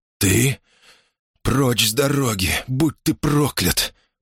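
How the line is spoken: Hoarse rasp. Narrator (Russian): прохрипел Поль

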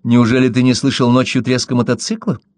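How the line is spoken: Sudden sharp question. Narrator (Russian): Вдруг Кэрри довольно резко спросила

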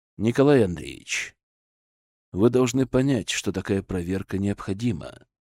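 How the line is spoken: Even voice. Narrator (Russian): ровным голосом сказал Зотов

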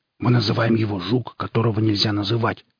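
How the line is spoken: Young man hissing. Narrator (Russian): прошипел парень

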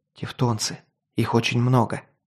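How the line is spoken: Whispered. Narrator (Russian): прошептал я

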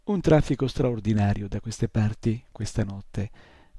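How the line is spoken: Crackling voice. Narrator (Italian): disse con la sua voce crocchiante

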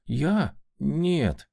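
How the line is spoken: Confused drawl. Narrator (Russian): растерянно протянул парень

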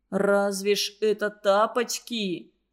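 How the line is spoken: Moaning. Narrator (Russian): простонал Сережка

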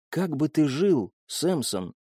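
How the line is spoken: Whisper. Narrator (Russian): прошептала Элина

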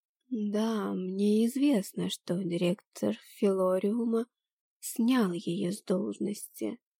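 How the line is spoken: Drawling voice. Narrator (Russian): тягучим голосом сообщила Гойя

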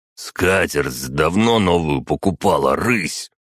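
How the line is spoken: Growl. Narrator (Russian): прорычал он

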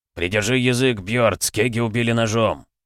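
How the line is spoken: Growl. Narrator (Russian): прорычал Грум

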